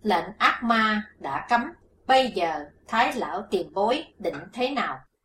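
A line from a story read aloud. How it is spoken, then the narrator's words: Stern question. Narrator (Vietnamese): Hắc Phụng Hoàng nghiêm giọng hỏi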